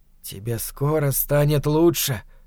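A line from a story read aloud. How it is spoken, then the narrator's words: Whisper. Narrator (Russian): шептал он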